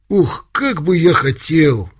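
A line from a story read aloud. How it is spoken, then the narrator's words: Exclaiming. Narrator (Russian): воскликнул Алешка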